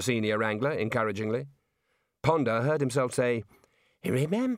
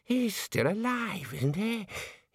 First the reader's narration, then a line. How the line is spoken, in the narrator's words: He wheezed